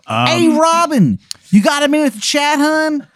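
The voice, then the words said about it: Exaggerated grating Maryland accent. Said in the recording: “the worst Maryland accent you've ever heard in your fucking life ... It sounds like nails on a chalkboard made of child bones.”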